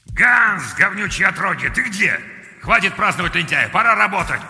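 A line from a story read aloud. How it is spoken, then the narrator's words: Growling. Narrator (Russian): прорычал Клаус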